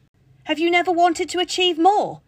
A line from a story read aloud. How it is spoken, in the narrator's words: Nicholas, shout